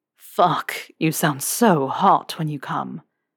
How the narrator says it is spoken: Draco growled

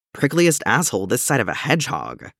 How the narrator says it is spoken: he says

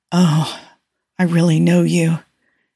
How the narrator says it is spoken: he breathed

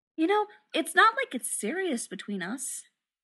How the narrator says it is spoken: Adam said earnestly

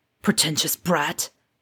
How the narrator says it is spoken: Sirius said under his breath

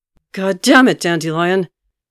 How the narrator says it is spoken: Geralt roared in absolute fury

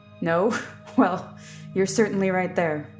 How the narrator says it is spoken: Tony laughed

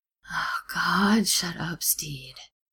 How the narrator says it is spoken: Ed moans

